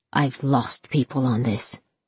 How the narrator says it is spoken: he hissed

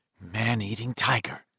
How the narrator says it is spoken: Ben muttered to Stan

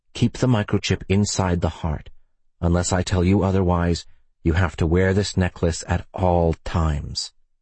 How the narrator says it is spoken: Ethan whispered

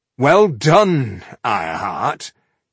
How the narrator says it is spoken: he said sarcastically

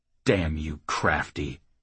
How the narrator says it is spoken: Jackal growled

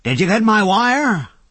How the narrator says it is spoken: cried

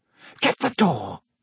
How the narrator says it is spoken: Aunt Petunia hissed at Harry

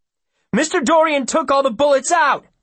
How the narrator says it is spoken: Will hollers

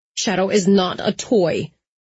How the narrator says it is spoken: I said through gritted teeth

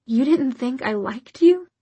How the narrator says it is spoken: Her voice rose incredulously

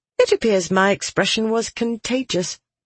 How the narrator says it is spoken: Alidian said dryly

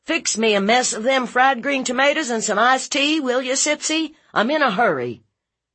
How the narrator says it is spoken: Grady Kilgore went to the kitchen door and hollered in

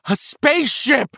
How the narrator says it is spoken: Richie screamed, falling to his knees and covering his eyes

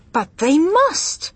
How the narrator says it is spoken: I cried

